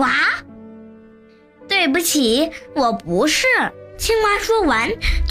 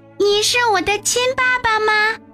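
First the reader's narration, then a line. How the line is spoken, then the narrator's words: Happy child's cry. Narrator (Chinese): 小家伙开心地叫起来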